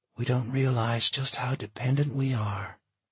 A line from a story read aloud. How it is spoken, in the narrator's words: Michaela sighed